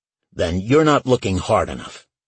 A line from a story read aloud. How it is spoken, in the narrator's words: Small snapped